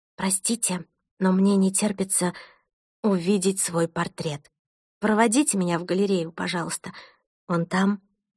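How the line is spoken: Whispered into ear. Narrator (Russian): шепнула Томасу на ухо

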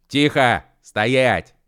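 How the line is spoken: Commanding shout. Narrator (Russian): командорским голосом закричал Машков

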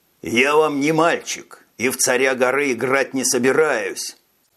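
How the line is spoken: Growl. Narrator (Russian): прорычал Дэн

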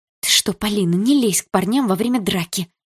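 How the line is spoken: Whisper. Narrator (Russian): зашептала она

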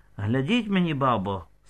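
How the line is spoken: Quiet. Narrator (Ukrainian): сказала тихо

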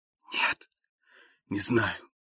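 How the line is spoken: Whisper. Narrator (Russian): прошептал я

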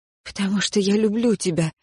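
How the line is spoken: Breathed out. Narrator (Russian): выдохнула я ответ

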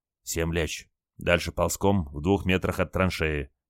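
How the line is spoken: Quiet command. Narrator (Russian): тихо приказал моряк

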